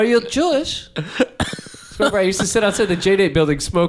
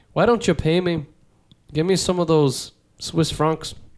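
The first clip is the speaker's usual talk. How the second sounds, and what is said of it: Put-on Northern Irish accent, drifting. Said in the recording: “My Northern Irish accent needs a little bit of work. ... No, it drifts into Hasid.”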